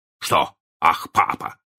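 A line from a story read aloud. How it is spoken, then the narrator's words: Stern question. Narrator (Russian): спросил мистер Дарлинг строго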